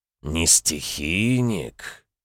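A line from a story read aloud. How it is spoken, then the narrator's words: Disappointed drawl. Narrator (Russian): разочарованно протянул дракон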